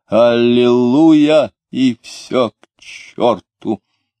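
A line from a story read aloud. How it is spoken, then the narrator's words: Drunken voice. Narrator (Russian): тот произнес пьяным голосом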